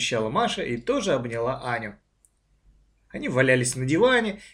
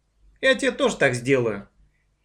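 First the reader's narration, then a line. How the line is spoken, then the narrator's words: Cheerful reply. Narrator (Russian): весело ответила Маша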